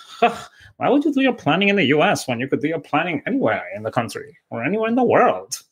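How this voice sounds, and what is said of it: Impression of Anna from Inventing Anna. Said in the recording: “my Inventing Anna impression ... I debated this morning for about an hour before I actually did my Inventing Anna impression.”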